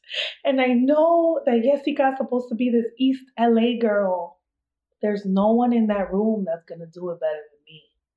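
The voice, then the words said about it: East Coast American accent. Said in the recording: “I know I'm an East Coast girl, and I have this accent.”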